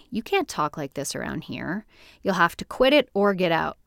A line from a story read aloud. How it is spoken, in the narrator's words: They said firmly